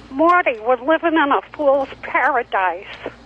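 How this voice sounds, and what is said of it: Imitates a TV commercial lady's voice. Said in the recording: “the Swiffer lady from TV. It's my impression of her. ... the voice of the Swiffer lady on television”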